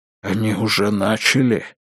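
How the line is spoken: Whispered. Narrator (Russian): прошептал отец Патрик

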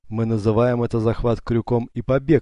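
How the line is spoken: Laughing. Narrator (Russian): рассмеялся Юсуф

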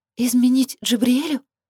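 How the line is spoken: Frightened objection. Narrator (Russian): испуганно возразила она

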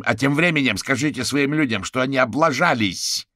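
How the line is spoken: Shouting out. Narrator (Russian): выкрикнул гусеница

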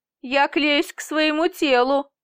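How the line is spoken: Laughing. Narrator (Russian): рассмеялся он

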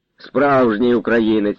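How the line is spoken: Laughing. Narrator (Ukrainian): розсміявся і донський козак

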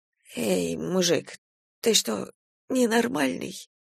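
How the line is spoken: Timid babbling. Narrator (Russian): пролепетал бандит

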